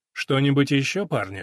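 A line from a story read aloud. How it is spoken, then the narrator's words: Captain's calm inquiry. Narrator (Russian): спокойно осведомился капитан Грисон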